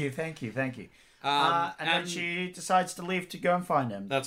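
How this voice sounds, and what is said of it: Usual voice. Nothing is said of it.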